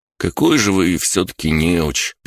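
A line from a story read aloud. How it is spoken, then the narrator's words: Sad. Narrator (Russian): печально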